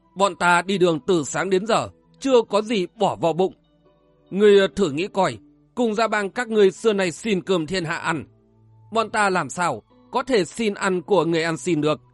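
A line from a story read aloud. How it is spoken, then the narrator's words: Laughing loudly. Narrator (Vietnamese): Lôi Trần Viễn cười lớn nói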